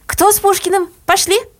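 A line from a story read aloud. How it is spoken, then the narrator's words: Breathless shouting woman. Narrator (Russian): рыхлая пионер-вожатая с красным потным лицом и крикнула, отдуваясь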